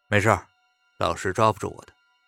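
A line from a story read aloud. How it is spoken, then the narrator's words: Cold. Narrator (Chinese): 白度冷冷的说道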